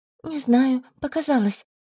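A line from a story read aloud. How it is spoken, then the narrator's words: Uncertain. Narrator (Russian): произнесла неуверенно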